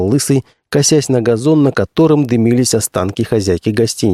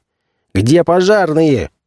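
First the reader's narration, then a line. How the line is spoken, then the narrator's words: Commissar shouting. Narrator (Russian): крикнул комиссар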